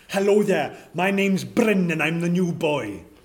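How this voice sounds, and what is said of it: Speaks with a strong accent. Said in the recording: “what an accent he's got”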